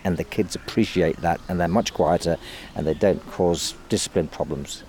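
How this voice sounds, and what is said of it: Perfect English accent. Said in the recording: “you speak with a perfectly English accent”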